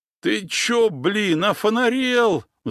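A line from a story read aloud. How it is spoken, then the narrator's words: Howling. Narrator (Russian): взвыл Гена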